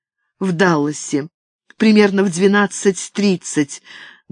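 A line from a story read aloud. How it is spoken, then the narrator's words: Trembling voice. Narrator (Russian): дрожащим голосом ответила Катарин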